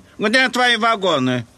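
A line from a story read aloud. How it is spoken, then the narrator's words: Angry question, thin inspector. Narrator (Russian): спросил худой инспектор сердито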